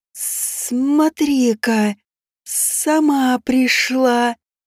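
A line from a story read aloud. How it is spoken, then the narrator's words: Hiss from above. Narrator (Russian): прошипел самый мелкий из них, из темной высоты ночи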